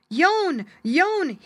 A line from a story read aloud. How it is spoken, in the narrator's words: cried